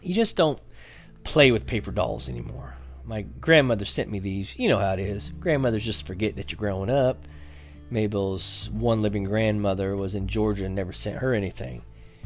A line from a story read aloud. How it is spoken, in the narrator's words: Leslie gave a little sigh